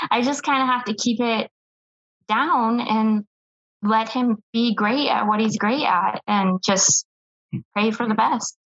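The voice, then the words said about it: Emotional, strained voice. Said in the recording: “sorry, you can hear it in my voice.”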